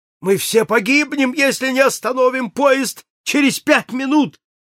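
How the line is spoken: Shouted while falling. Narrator (Russian): Падая, он прокричал

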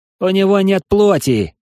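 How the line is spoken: Shouted from behind. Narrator (Russian): крикнул сзади Юринарий

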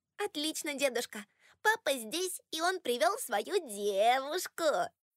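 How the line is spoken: Laughing singsong child's voice. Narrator (Russian): Келли рассмеялась, растягивая последнее слово певучим детским голосом

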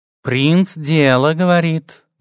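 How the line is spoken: Purring cat. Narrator (Russian): мурлыкнул кот

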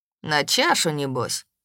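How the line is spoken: Displeased grumble. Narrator (Russian): не скрывая недовольства, проворчал Кирсай

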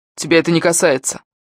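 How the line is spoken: Snapping retort. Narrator (Russian): огрызнулся Сэм, что было на него не похоже

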